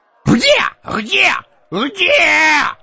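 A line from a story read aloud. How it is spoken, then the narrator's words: Wheezing through fanged maw. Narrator (Russian): хрипел он перекошенной клыкастой пастью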